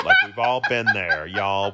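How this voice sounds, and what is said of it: Put-on Southern accent. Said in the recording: “with the Southern accent”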